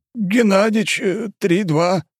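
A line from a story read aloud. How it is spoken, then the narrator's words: Strained old man. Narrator (Russian): выдавил из себя старик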